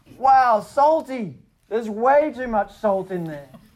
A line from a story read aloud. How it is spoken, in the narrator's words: Michaela had one of our cookies and yelled